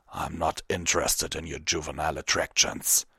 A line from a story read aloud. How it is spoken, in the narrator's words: Vanguard growled